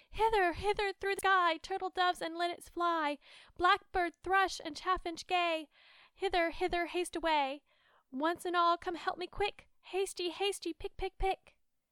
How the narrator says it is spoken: the little maiden cried out

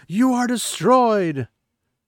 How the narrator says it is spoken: Rand shouts

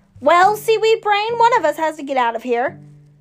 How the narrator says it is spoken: snapped

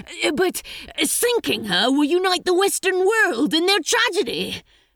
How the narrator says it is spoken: Crowley tried again desperately

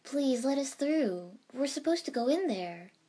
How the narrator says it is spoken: Tenten pleaded to the two door guards

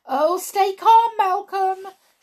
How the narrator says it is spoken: shouted Mum

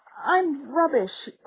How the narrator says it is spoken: croaked Ron

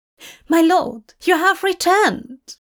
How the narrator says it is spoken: cries

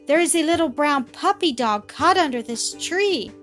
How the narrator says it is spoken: cried Millie

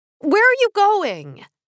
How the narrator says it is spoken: I yelled

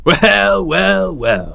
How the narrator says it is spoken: he sneered

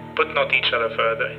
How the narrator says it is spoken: said he

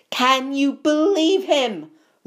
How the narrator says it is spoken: roared Ron as one of the remaining pixies bit him painfully on the ear

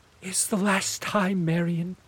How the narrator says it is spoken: pleaded

